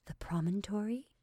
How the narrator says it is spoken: she softly whispered

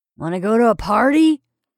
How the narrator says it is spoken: demanded Perry sternly

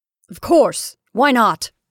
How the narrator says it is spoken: cried Caroline sternly

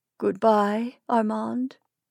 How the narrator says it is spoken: she moaned

